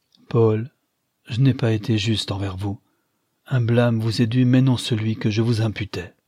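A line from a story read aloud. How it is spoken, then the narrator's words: Sighing after a pause. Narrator (French): Holman reprit qu'au bout d'un instant, avec un soupir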